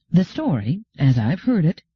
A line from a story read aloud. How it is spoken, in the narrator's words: said Gladia calmly